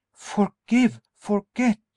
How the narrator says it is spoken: she exclaimed in bewildered tones

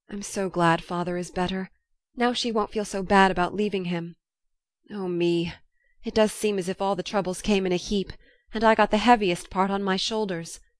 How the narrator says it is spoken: sighed Joe

